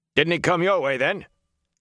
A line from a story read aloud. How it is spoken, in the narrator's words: shouting